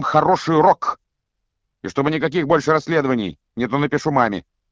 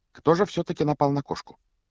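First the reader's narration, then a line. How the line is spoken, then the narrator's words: Quiet, casual question. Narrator (Russian): Негромко спросила она, как будто продолжила прерванную беседу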